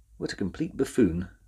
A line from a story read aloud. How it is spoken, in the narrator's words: said the professor quietly